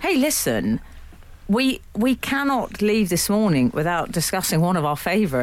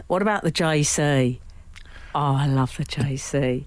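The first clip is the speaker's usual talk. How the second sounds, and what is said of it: Imitates another person's accent. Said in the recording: “that's her accent I'm doing... I didn't know she was Indian”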